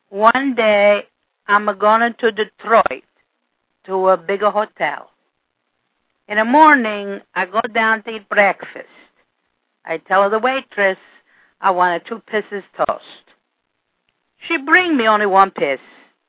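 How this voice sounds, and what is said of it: Put-on Italian accent. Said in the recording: “must be read with Italian accent.”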